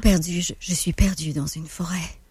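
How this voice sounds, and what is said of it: Deeper, breathier dubbing voice. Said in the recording (French): “Dakota, c'est pas mal la même voix, mais Dakota, je te dirais qu'elle est plus deep, il y a plus d'air dedans.”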